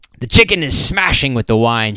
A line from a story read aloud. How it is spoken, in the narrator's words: shouted Wild Jack